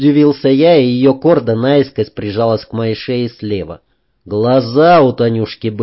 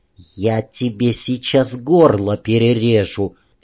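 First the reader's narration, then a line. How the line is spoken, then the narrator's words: Quiet. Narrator (Russian): тихо сказала она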